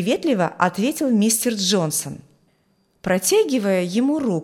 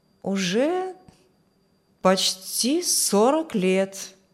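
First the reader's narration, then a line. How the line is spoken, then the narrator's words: Thoughtful. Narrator (Russian): Мистер Хортон задумчиво сказал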